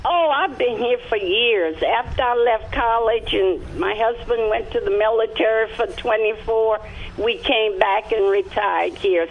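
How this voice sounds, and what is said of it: Slight Louisiana accent. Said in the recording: “you still have a little bit of that Louisiana in your accent. I can still hear it.”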